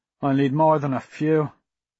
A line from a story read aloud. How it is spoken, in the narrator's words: Kev said gloomily